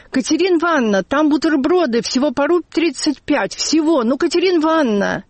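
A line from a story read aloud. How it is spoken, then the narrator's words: Excited ringing boy's shout. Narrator (Russian): один мальчишеский, звонкий, возбужденный голос крикнул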